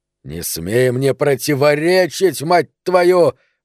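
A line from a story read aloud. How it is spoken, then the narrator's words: Roaring. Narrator (Russian): взревел Пономарь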